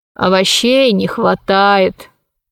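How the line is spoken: Sighed. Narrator (Russian): вздохнул Посейдон

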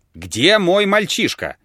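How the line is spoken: Shouting again. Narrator (Russian): закричал он опять

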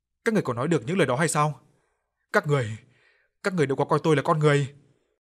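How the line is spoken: Loud shout. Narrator (Vietnamese): Bà Cảnh ... giọng bà hét lớn

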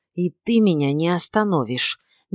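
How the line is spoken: Nervous hiss. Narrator (Russian): нервно прошипел Гилберт

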